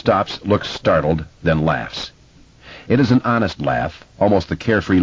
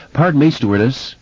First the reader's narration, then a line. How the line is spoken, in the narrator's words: someone calls nervously